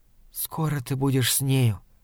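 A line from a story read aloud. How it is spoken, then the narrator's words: Hurried whisper. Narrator (Russian): торопливо шепнула она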